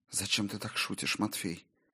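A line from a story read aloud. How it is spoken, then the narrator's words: Strained whisper. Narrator (Russian): С трудом выговорила она шепотом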